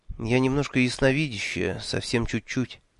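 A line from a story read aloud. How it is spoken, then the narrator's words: Quiet explanation. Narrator (Russian): тихо объяснила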